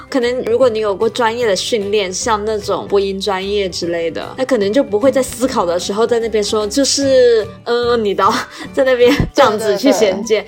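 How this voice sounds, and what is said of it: Noticeable southern Chinese Mandarin accent. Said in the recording (Chinese): “我们两个的口音 ... 南方口音和北方口音真的差好多 ... 我们两个就是会有很明显的南方的腔调”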